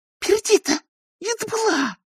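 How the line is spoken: Hissed. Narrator (Russian): прошипела она

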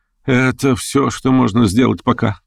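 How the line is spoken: Sighing. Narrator (Russian): вздохнул он

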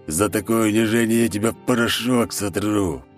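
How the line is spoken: Hoarse rasp over phone. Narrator (Russian): прохрипел в телефон лысый

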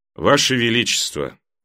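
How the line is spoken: Calm. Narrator (Russian): спокойно, как всегда, молвил мейстер Эймон

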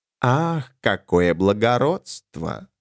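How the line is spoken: Purring. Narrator (Russian): мурлыкнула Альтесса

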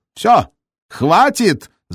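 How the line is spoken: Yelling. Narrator (Russian): заорал Волин

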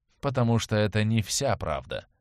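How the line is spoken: Gloomy, emperor. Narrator (Russian): мрачно произнес император

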